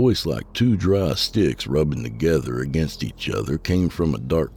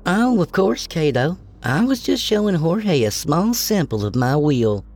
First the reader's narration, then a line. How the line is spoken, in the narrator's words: Shirley cooed